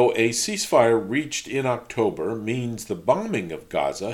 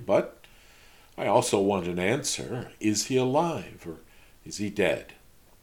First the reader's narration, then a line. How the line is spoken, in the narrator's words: she said softly